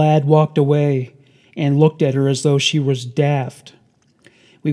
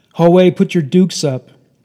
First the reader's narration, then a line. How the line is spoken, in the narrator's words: She shouted